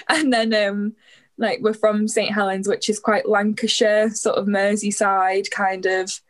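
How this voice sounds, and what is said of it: Northern English accent, slightly Scouse. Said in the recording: “a little bit of like a northern accent ... sometimes my accent sounds a bit Scouse ... a bit of an unusual accent ... Quite hard to place.”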